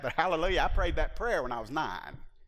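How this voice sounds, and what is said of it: Exaggerated Southern hillbilly accent. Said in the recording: “Bunch of hillbilly talk. I heard that so much, and usually it was in that accent... That's the accent. I need to be careful here because I am from the South.”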